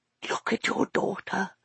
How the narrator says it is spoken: she whispered

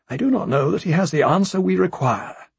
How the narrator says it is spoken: His Grace said

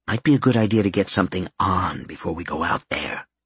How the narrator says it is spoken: he said softly

